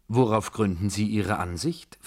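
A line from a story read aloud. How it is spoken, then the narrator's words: Plain question, Frenchman. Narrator (German): fragte der Franzose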